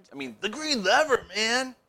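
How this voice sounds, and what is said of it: Exaggerated character voice. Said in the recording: “Forgot my character voice.”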